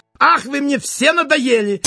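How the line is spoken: Angry exclamation. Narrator (Russian): сердито воскликнул он

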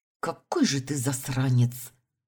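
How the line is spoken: Angry, through gritted teeth. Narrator (Russian): зло процедила

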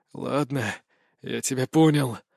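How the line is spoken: Exhaled. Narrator (Russian): выдохнул Лех

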